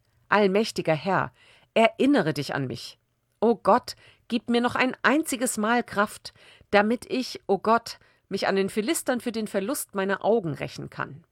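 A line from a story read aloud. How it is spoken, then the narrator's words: Calling out in prayer. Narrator (German): rief Simson den Herrn an und sagte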